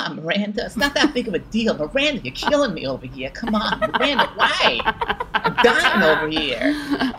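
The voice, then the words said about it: Good impression of another person. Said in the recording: “That was a good impression.”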